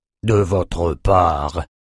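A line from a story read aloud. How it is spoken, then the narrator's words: Mumbled. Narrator (French): marmonna Reine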